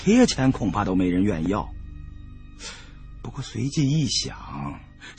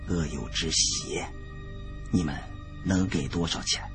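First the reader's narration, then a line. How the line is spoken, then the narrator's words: Quiet voice. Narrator (Chinese): 李春来 小声说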